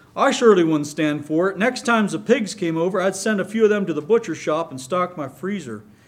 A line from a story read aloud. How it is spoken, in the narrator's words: finished with a hearty laugh